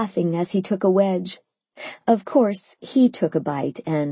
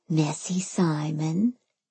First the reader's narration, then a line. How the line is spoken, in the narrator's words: I whispered